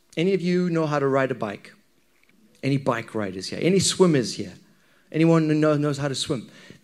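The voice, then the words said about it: Zimbabwean accent. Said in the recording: “growing up in Zimbabwe, there we go, I've explained my accent for you”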